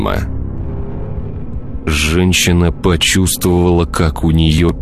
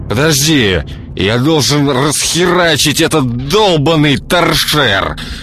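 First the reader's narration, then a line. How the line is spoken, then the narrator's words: Angry hiss, man. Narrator (Russian): Гневно прошипел мужчина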